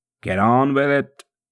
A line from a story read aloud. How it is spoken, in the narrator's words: the chief scribes bellowed outside the gate